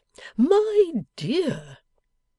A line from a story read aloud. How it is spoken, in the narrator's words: the cherub faltered with something of a craven air